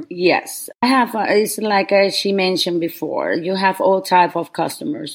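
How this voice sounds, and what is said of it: Foreign accent. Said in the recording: “accent”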